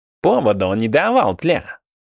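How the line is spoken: Snorting. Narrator (Russian): фыркнул Плацента

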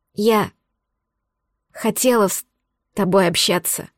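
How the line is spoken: Breathy, stammering, tearful. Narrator (Russian): говорит с выдохом, заикаясь, размазывая пальцами капли слез

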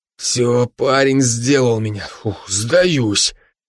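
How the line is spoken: Wheezed. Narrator (Russian): прохрипел Влад

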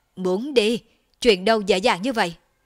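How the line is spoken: Low growl. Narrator (Vietnamese): Thiên Sát Chân Quân gầm nhẹ lên một tiếng

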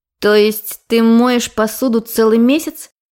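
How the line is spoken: Mocking clarification. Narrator (Russian): уточнила, насмешливо подняв бровь

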